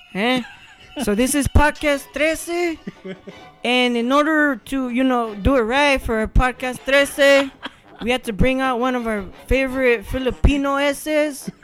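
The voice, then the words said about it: Put-on Chicano vato accent. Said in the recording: “I'm going to try to do my best vato voice.”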